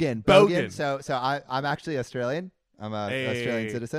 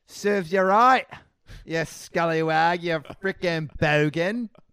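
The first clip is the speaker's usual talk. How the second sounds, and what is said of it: Put-on Australian accent. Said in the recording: “serves you right in an Australian accent”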